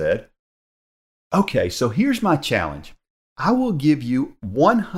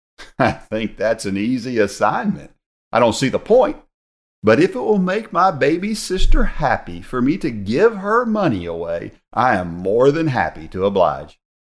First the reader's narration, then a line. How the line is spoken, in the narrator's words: Frank said sarcastically